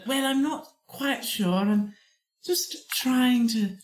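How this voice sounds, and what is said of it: Convincing put-on British accent. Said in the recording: “Do British. ... to do a British voice ... How do you do that so good? ... Archetypal British”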